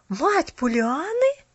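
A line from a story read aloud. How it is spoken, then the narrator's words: Surprised unison exclamation. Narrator (Russian): В один голос воскликнули удивленные Керри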